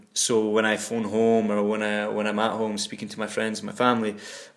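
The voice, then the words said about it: Mildly diluted Nairnshire Scottish accent. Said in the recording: “my accent, Nairnshire accent ... my accent, you could argue, is somewhat diluted. But to not to a massive extent.”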